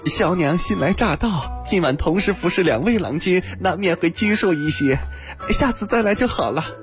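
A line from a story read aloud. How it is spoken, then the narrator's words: Apologetic. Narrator (Chinese): 赔礼道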